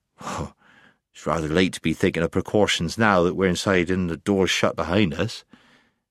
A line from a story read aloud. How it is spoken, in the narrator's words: distrusting the gentle giants as he did, but he muttered